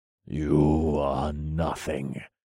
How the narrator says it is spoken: I said through clenched teeth

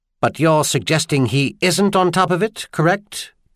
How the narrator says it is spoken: Trenaire asked sharply

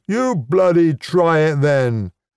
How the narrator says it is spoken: the standing dwarf would howl

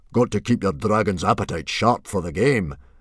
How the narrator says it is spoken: boomed Stoic the Vast, who was in an excellent mood

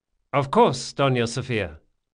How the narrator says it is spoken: said Locke cheerfully

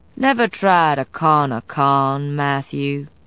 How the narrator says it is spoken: Ransom said in the same lazy drawl

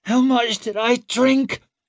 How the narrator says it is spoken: she croaked out

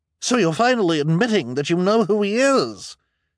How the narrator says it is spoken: she cried triumphantly

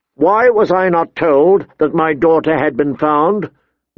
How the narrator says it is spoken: Ned demanded, his voice ringing

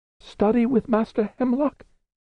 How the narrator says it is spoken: said Diamond, his voice up half an octave

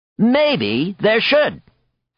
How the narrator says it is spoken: Coyote exclaimed

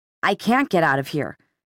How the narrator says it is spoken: Simon said tightly

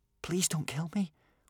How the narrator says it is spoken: whispered

